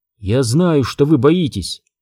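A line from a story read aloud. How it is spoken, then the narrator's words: Gentle. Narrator (Russian): мягко сказала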